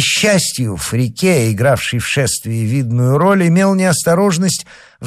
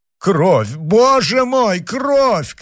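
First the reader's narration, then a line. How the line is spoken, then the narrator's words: Screaming. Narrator (Russian): кричала Нанетта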